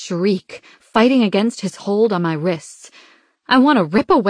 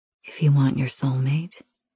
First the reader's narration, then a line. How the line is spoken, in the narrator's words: he says, his voice low